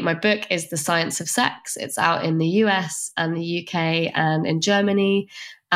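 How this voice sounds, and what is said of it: British accent. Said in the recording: “As you probably guessed from the accent, I'm based in the UK.”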